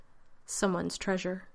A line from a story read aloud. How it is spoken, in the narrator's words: Doctor added dryly